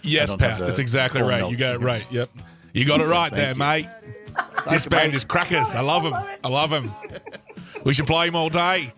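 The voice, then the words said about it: Good put-on Australian accent. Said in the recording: “such a good Aussie accent”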